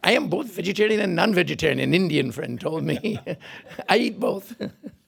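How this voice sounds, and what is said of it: Imitates an Indian friend's voice. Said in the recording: “Who are you imitating there? ... that I was imitating ... The Indian friend”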